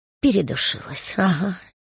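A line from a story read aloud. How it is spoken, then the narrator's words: Guilty whisper. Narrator (Russian): виновато шепнула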